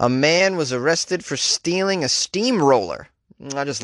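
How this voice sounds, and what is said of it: Usual voice. Nothing is said of it.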